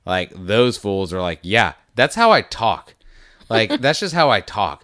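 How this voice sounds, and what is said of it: Speaks with a thick accent. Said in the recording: “I've been here for 2 decades and I still have a super thick accent.”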